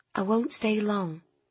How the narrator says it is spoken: said Nina in a calm tone

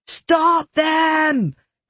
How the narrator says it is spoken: their pursuers screamed

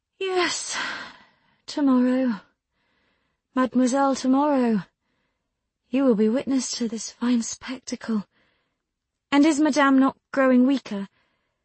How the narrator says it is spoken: with a sigh, she added

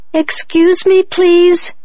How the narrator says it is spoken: called out

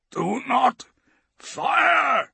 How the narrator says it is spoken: he croaks

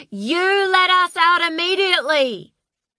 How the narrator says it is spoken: she shrieked

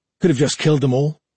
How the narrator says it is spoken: Norta suggested sullenly

